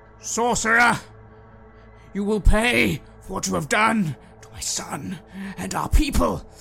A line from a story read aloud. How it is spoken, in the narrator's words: I bellow out